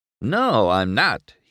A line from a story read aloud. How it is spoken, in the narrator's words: he replied